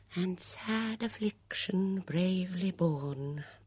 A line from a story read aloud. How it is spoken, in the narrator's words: murmured Miss Banner, her eyes suffusing with tears